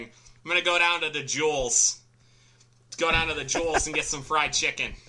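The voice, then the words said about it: Exaggerated Chicago accent. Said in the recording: “to do a Chicago accent ... you just got to get the long A's”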